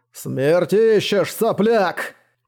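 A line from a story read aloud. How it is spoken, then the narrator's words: Roar. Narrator (Russian): рёвом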